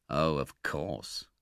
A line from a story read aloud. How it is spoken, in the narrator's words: said the stranger with a sneer